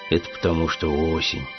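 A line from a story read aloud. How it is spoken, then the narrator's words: Bear cub sighing. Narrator (Russian): вздохнул медвежонок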